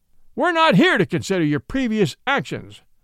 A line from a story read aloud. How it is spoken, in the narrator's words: bellowed Judge Whitberg